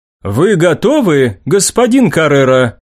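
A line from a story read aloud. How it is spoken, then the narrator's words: Loud question. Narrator (Russian): громко спросила Креспа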